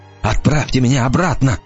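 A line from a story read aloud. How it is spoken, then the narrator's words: Pleading. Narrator (Russian): взмолился Мартин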